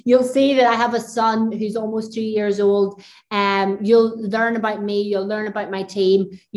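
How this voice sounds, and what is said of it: Thick Northern Irish accent. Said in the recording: “I've got the big, thick Northern Irish accent.”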